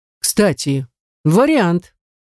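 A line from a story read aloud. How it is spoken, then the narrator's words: Sharp blurt. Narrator (Russian): я резко выдаю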